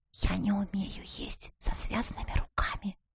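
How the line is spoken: Whisper against lips. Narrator (Russian): шепнула ему в губы

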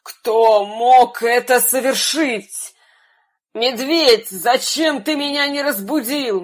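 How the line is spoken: Lion's roaring exclamation. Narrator (Russian): лев начал страшно рычать и воскликнул

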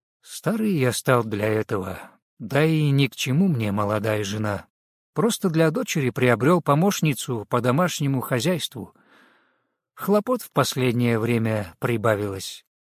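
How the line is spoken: Calm, even voice. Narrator (Russian): Баракат был смущен таким вопросом, но, успокоившись, ровным голосом ответил

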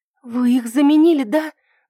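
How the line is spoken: Trembling question. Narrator (Russian): дрожащим голосом спросила я

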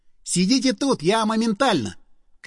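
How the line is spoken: Shouted. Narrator (Russian): крикнул я

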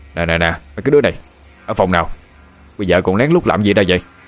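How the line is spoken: Roused, raised voice. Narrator (Vietnamese): Ông bảo vệ bị đánh thức cao giọng nói

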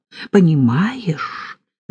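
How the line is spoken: Whisper. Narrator (Russian): зашептала Полина

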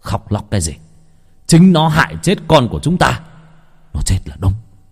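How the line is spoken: Harsh, stern voice. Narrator (Vietnamese): Thấy vợ khóc, ông Lâm gằn giọng

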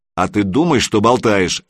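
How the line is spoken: Gruff barking. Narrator (Russian): рявкнул Санек

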